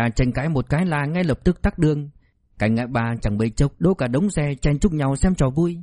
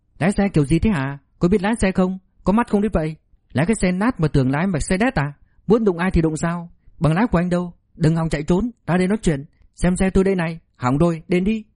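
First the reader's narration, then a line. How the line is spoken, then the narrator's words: Angry yelling. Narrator (Vietnamese): Thôi Tiểu Thiên quát tháo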